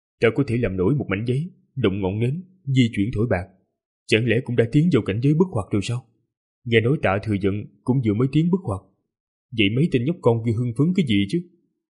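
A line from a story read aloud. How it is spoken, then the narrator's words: Pensive muttering. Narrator (Vietnamese): trầm mặc rất lâu rồi lẩm bẩm nói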